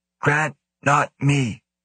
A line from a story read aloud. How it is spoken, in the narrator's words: Sheena rasped